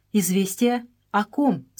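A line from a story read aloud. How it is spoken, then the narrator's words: Plain. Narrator (Russian): спросила Мария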